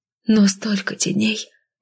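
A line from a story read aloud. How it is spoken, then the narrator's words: Muttering. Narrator (Russian): пробормотала я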